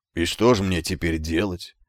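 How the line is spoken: Lost, bewildered question. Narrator (Russian): потерянным голосом спросил

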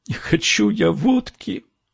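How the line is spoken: Sobbing young woman. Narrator (Russian): всхлипнула девушка

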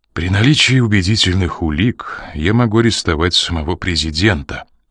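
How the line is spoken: Quiet. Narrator (Russian): тихо произнес

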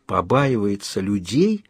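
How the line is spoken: Whisper. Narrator (Russian): прошептал Кайл

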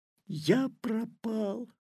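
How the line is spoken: Whisper. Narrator (Russian): прошептал Петя

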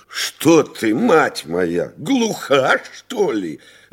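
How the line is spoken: Shouting countess. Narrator (Russian): закричала графиня

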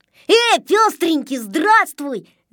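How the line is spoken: Shouted greeting. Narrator (Russian): закричал Незнайка

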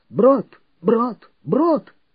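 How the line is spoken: Hoarse repeated shouting. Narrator (Russian): начал хрипло выкрикивать

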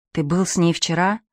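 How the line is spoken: Barely audible question. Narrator (Russian): спрашивает Пьеро чуть слышно

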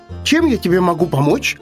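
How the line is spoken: Shout right into ear, hare. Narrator (Russian): в самое ухо тетереву крикнул заяц

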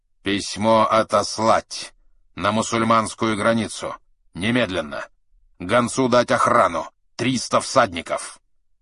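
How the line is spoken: Curt, clipped. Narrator (Russian): Чингисхан сказал резко и отрывисто

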